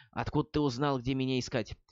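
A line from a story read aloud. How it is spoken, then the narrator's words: Whispered question. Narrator (Russian): Тео шепотом поинтересовался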